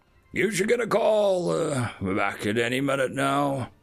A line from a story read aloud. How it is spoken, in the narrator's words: he drawled